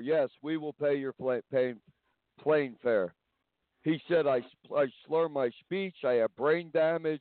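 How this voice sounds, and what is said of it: New York accent. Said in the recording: “I have a New York accent because I'm from New York.”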